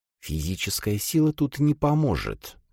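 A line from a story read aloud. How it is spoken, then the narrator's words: Singsong whisper. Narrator (Russian): прошептала Шия, голос которой все еще звучал напевно из-за попыток вдохнуть жизнь в упрямое устройство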